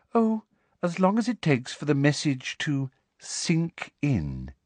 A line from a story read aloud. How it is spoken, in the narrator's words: said Umbridge sweetly